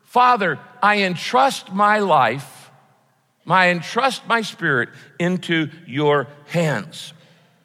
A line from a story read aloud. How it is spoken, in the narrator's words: he shouted the word